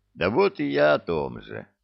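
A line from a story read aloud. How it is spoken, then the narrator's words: Dejected sigh. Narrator (Russian): сокрушенно вздохнул капитан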